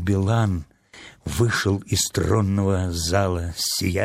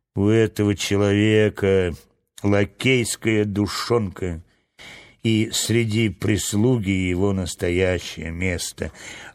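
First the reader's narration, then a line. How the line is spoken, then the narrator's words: Grumbling. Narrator (Russian): проворчал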